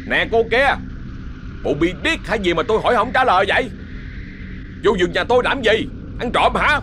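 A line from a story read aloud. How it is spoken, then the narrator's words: Irritated shout. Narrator (Vietnamese): Lúc này đã có chút bực mình, hai khỏe liền hét lên nghe lộc lộc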